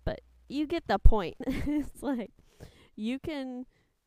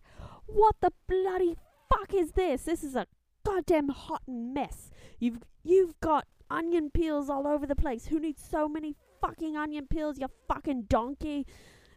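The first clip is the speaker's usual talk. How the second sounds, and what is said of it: Poor imitation of another person's accent. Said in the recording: “That was a shitty accent. I can do much better when I'm sober.”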